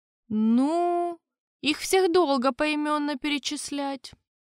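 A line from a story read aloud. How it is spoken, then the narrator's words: Disappointed sigh. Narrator (Russian): Разочарованно вздохнул Леон II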